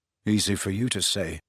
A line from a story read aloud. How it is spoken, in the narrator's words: muttered Harry